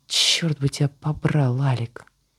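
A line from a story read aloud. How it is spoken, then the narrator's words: Young woman's hiss. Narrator (Russian): прошипела девушка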